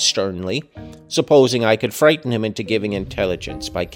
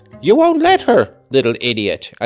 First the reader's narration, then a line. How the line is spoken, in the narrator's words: I exclaimed